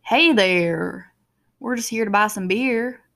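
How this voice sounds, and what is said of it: Imitated Southern accent. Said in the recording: “did not realize they had Southern accents there ... why do people in Indiana have Southern accents?”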